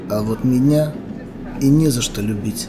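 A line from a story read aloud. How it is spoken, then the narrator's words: Plain. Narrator (Russian): сказал мужчина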